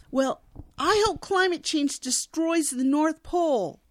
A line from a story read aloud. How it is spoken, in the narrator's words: Dash yells after the elf